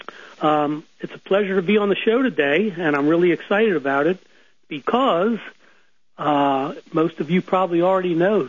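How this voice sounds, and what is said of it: Nasal, congested voice. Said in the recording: “excuse my voice. I've got either got a cold or allergies, but I've definitely got something going on. So if I sound a little nasal”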